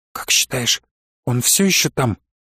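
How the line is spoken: Whispered question. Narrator (Russian): прошептала она вопрос

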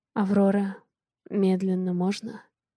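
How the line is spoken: Hoarse. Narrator (Russian): Голос хриплый

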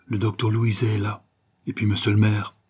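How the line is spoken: Low voice. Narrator (French): dit à voix basse

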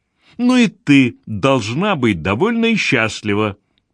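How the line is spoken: Irritated objection. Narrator (Russian): раздраженно возразила Гвендолин

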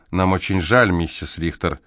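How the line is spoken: Mumbling. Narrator (Russian): Селитта, мямлившего

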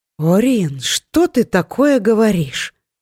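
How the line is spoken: Exclamation. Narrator (Russian): воскликнула Беллиса

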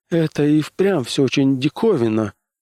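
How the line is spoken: Sad wry chuckle. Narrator (Russian): грустно усмехнулся Кар

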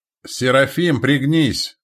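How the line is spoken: Barked command. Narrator (Russian): рявкнул месток

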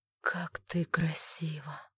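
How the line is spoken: Hoarse whisper. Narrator (Russian): хрипло прошептал Тайн

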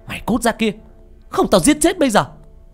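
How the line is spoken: Shouting while shoving. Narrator (Vietnamese): Bà vừa đẩy vừa hét

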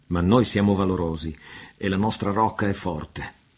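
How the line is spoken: Exclaimed. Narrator (Italian): esclamò Janez

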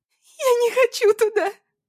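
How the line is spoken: Sobbing stepmother. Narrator (Russian): всхлипывала мачеха

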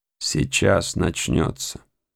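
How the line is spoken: Mumbled. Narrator (Russian): пробормотал капитан Маквир

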